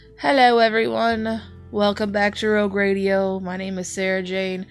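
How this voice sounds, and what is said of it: Raspy, sick-sounding voice. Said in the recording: “Forgive my raspy voice. ... Man, you sound sick.”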